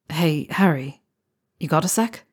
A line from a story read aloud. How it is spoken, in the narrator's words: Lee asked, his hand brushing against his pocket nervously